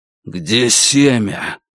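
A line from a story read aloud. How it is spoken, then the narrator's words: Breathy exhale. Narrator (Russian): воин выдохнул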